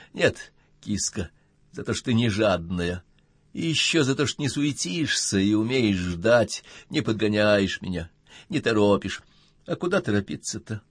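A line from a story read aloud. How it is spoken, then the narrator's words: Affectionate purr. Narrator (Russian): промурлыкала Ирина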